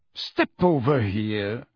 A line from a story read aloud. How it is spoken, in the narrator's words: said the wizard in a bored voice